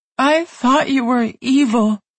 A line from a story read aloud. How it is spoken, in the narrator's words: sobbed